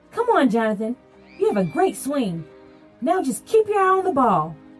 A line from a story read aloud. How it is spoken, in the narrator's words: Coach yelled